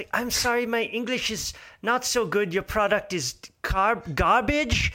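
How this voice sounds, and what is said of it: Put-on Swedish accent. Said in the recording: “he did it with a Swedish accent”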